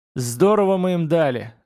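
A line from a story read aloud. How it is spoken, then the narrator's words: Gloating laughter. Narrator (Russian): злорадно рассмеялся Техмейни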